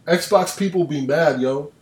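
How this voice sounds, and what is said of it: Put-on Black American accent. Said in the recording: “you like my black scent? ... 10 out of 10. Best accent. ... Best black scent ever.”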